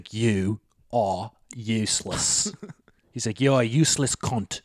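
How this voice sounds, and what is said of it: Put-on English accent drifting Australian. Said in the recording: “it wasn't a bad English accent to start with ... It was pretty good. You kind of morphed into Australian accent towards the end, but the start of it was good.”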